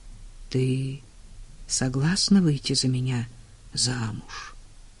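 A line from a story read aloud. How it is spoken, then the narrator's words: Quiet question. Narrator (Russian): тихо спросил Клейтон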